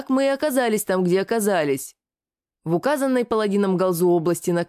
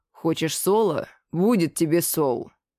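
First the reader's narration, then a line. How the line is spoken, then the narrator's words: Growling. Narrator (Russian): прорычал Рогат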